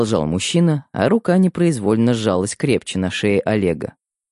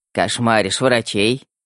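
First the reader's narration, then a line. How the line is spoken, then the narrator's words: Smirking. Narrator (Russian): хмыкнул Светлов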